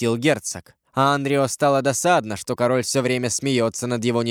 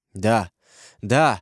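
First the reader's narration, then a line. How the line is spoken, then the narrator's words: Mutter. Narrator (Russian): пробормотал Франсуа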